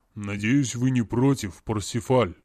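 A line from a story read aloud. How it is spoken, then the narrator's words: Deep bass voice. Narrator (Russian): пробасил Ог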